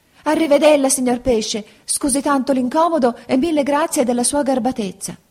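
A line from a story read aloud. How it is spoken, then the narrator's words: Frightened shouting. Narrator (Italian): gridò spaventato il burattino ... gli disse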